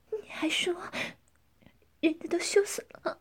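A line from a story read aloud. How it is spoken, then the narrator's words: Panting, breathless. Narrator (Chinese): 江环喘着粗气说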